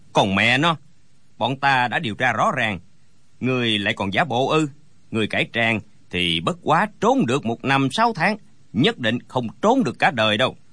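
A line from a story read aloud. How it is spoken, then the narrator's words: Sneering laugh. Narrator (Vietnamese): Gã cao kèo lại cười khẩy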